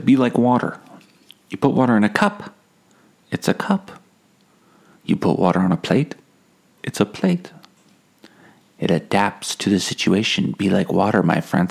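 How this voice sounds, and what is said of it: Imitation of Bruce Lee's accent. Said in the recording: “Oh, I shouldn't do the accent. Sorry about that.”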